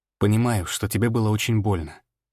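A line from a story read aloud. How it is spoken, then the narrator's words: Soft reply. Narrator (Russian): мягко ответил я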